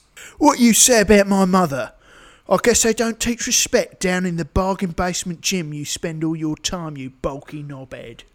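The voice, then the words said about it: British accent. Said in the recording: “I don't understand you through that stupid accent ... why all British people”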